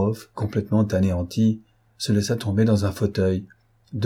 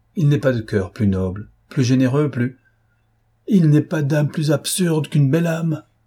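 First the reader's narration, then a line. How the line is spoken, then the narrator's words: Exclaiming. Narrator (French): s'écria Platon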